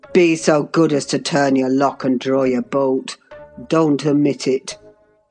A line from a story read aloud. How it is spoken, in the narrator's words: added in the strangest tone